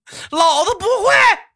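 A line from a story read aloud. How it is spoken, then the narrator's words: Arrogant shout. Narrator (Chinese): 他非常嚣张的喊了一句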